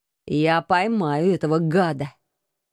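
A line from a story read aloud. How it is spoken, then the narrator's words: Furious hiss. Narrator (Russian): яростно прошипел мой муж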